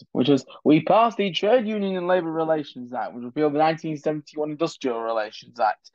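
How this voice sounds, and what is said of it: Harold Wilson accent impression. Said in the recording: “Those are the words of Harold Wilson ... I didn't do it in his accent, did I? ... Let me do it in his accent”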